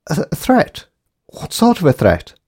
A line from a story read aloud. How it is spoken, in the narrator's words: asked Jane in a shocked voice